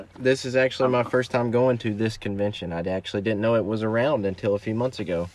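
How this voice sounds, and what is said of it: Alabama Southern US accent. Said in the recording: “Alabama, I figured you were in Alabama ... I could hear the ... You heard the accent ... I heard the accent”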